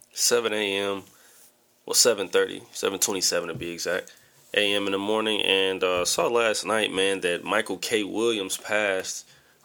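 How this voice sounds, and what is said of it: Slightly raspy voice. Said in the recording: “I sound a little raspy.”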